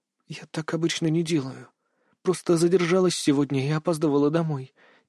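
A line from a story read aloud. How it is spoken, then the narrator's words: Quiet objection. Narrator (Russian): тихо возразила она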